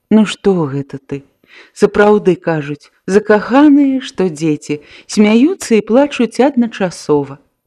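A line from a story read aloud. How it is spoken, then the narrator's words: Gentle reproach. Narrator (Belarusian): Таццяна ласкава ўпікнула яе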